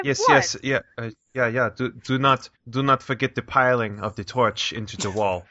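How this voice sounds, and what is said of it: Put-on Dutch accent, inconsistent. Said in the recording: “I love this Dutch accent you've come up with. ... It vacillates wildly.”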